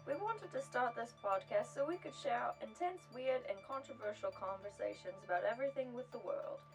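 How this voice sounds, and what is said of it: Terrible put-on British accent. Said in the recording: “We apologize for our terrible British accent ... our awful British accents”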